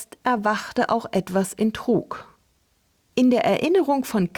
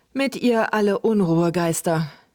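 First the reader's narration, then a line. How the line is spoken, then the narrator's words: Hesitant, uneasy. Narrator (German): wiederholten Luke und Trug etwas zögernd, denn der Spuk dieser Kerlchen war ihnen nicht besonders geheuer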